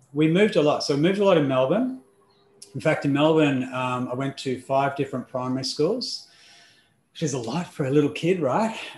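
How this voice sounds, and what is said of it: Australian accent. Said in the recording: “if you haven't figured out the accent just yet, it is Australian”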